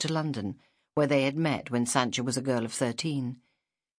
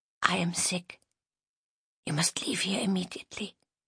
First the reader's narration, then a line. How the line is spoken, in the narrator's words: whispered